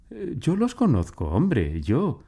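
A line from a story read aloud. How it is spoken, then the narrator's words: Lady exclaiming. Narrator (Spanish): exclamó su señora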